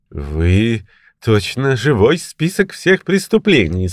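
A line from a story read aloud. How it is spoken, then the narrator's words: Laughing exclamation. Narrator (Russian): смеясь воскликнул Стэмфорд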